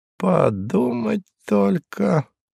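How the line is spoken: Muttering. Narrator (Russian): пробормотал он

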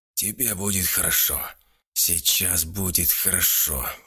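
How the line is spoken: Wheezy voice, villager. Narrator (Russian): просипел селянин

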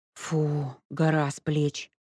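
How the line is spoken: Sigh. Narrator (Russian): вздохнула Леська

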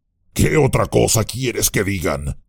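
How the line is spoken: Growling. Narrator (Spanish): gruñó Gorbak

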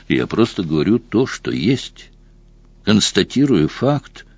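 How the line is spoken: Deliberately calm. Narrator (Russian): нарочито спокойно произнес Сэм

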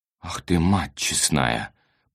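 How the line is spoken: Mutter. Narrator (Russian): пробормотал Виктор Захарыч

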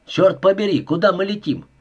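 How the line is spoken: Shouting. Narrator (Russian): крикнул Уэбстер

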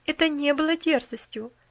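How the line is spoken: Calm objection. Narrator (Russian): спокойно возразила миссис Сноу

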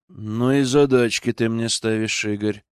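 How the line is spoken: Sighing. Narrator (Russian): вздохнул он

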